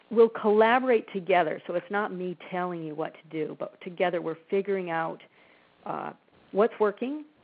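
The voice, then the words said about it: Slightly strained, fading voice. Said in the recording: “My voice is going a little bit.”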